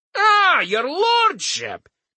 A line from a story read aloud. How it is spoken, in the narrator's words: Crumb said loudly